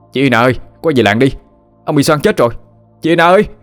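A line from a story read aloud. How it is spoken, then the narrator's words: Loud shout. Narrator (Vietnamese): người này đã hét lớn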